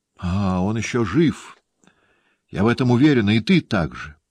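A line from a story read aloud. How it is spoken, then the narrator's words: Exclaimed. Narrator (Russian): воскликнула мадемуазель де Меркер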